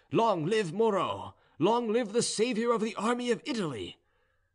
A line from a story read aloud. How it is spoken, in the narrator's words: the successive acclamations of its different divisions, which cried